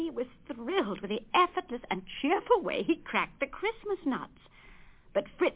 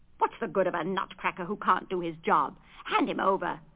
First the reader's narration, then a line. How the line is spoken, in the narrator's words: snorted Fritz